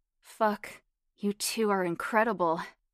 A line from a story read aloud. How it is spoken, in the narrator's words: grunted